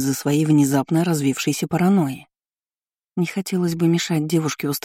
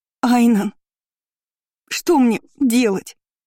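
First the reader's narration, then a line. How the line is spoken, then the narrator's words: Sobbing woman. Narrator (Russian): рыдал женский голос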